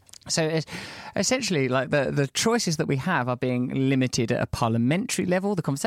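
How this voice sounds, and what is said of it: Usual voice. Nothing is said of it.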